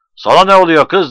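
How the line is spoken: Shouted. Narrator (Turkish): diye bağırdı

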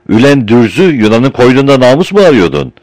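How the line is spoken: Shouting again. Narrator (Turkish): yine bağırdı

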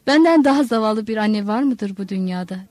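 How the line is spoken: Plain. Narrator (Turkish): dedi

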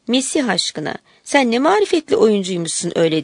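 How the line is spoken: Girl laughing. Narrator (Turkish): kız gülerek ona

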